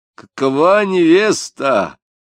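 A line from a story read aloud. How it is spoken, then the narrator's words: Shout. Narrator (Russian): крикнул Корчмаренко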